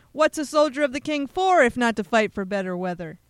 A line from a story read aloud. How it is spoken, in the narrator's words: The man laughed over his shoulder and slyly shouted